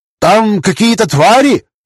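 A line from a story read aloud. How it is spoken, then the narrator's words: Yelling from afar. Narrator (Russian): заорали с надвратной башни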